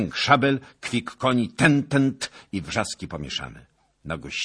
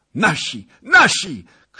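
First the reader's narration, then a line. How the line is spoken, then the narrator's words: Shouted. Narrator (Polish): krzyknął Wołodyjowski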